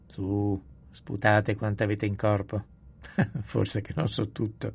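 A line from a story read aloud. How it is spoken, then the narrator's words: Good-natured laughter. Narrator (Italian): disse papà Ruol ridendo con bonomia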